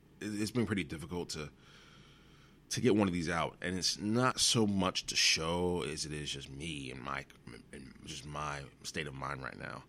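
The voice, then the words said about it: Exhausted, tired-sounding voice. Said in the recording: “As you can probably tell, I sound pretty exhausted.”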